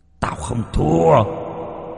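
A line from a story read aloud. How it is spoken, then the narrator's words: Hissing shriek. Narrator (Vietnamese): Cánh tay rít lên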